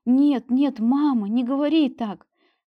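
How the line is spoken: Fervent exclamation, young woman. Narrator (Russian): С жаром воскликнула молодая женщина

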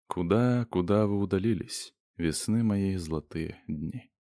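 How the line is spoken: Off-key singing into ear. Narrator (Russian): тот автору Онегина прямо в ухо нескладным голосом запел

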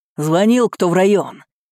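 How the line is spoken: Barked. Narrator (Russian): рявкнул Новиков на толпу

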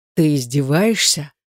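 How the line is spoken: Dry, through teeth. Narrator (Russian): процедил он сухо

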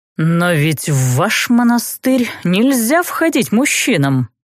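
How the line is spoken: Caustic, through teeth. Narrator (Russian): едко процедил граф

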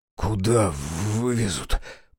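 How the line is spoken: Hoarse wheeze. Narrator (Russian): прохрипел я

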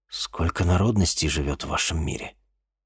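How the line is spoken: Quiet question. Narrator (Russian): тихо спросил Денис

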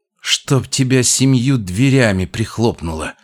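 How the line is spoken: Muttered through teeth. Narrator (Russian): процедила она

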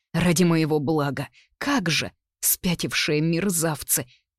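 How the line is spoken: Hoarse pained mutter. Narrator (Russian): пробормотала хрипло, стараясь не обращать внимания на резь в животе

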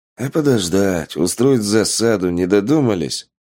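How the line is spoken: Sigh. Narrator (Russian): вздохнул Полос

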